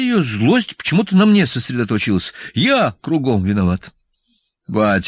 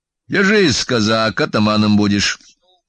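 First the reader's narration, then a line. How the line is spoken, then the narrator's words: Rather cold. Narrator (Russian): Проговорил он довольно холодно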